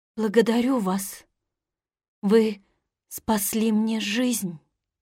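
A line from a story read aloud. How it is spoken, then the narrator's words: Weak voice. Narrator (Russian): сказала слабым голосом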